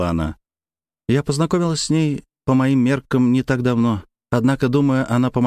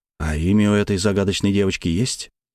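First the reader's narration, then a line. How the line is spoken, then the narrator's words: Heavy sigh. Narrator (Russian): Славя тяжело вздохнула и продолжила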